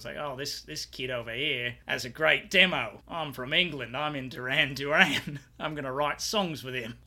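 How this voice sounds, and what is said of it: Terrible put-on British accent. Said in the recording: “doing a terrible British accent.”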